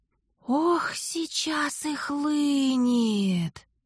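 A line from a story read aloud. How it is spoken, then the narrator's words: Delighted whisper. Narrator (Russian): С восторгом прошептал Дар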